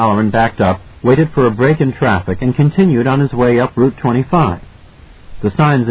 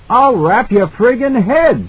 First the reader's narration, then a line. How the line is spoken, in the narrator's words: the cop shouted back